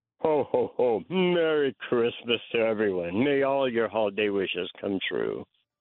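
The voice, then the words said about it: Jolly Santa voice, sounds drunk. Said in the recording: “that your impression ... give us your best one ... I kind of feel like you're drunk right now.”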